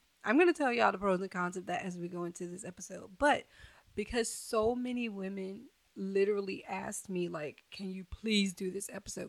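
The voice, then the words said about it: Hoarse, very raspy voice. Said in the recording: “I am coming down with the cold, so I am hoarse and my voice sounds very, very raspy.”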